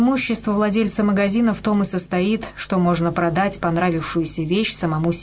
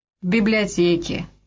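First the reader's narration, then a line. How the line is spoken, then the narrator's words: Gloomy. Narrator (Russian): мрачно сообщила Бетси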